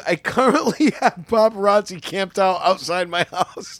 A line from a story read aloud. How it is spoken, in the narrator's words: laughing